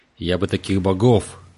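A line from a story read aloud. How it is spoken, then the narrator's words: Grumbling darkness. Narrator (Russian): проворчал мрак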